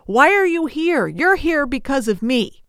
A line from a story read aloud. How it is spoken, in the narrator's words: JJ ... he yells at the other guy